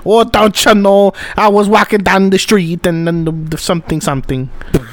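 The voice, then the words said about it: Put-on Gaelic accent drifting Scandinavian. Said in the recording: “Gaelic accents... it started off Gaelic and then it went down towards Scandinavian... that accent was Gaelic”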